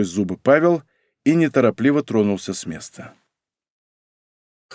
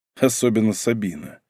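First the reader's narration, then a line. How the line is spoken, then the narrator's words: Grim smirk. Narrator (Russian): мрачно усмехнулся Павел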